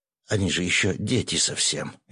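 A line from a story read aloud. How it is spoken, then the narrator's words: Frightened mutter. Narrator (Russian): испуганно пробормотал он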